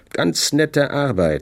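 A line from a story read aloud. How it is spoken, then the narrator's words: Plain. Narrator (German): sagte ich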